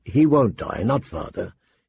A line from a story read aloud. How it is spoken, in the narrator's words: he said calmly